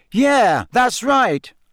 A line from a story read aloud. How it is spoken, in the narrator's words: said Harry, raising his voice slightly so that Karkaroff could hear him